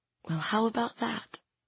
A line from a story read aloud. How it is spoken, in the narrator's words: I whispered